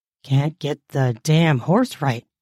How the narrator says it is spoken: muttered

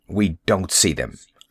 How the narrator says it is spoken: I snapped

